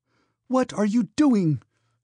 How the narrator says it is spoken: she cried vehemently

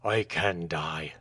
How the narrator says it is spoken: answered Michael fiercely

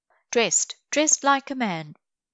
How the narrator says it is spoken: exclaimed Zélie St-Pierre

